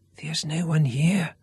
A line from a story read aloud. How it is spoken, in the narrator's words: whispered Garrick